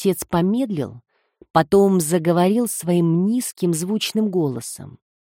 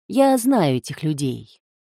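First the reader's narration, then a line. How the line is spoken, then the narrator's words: Gentle. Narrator (Russian): мягко добавил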